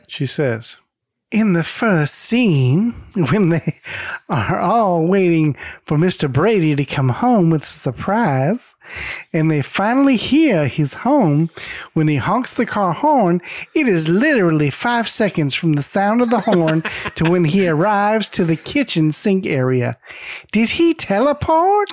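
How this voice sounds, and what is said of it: Imitates another person's voice. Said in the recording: “I'm going to do my best Mindy impression... I sounded just like her, didn't I?”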